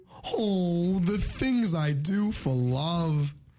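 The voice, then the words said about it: Cartoon character impression, fairly decent. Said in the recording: “good Courage impression ... like solid 6, 7 out of 10”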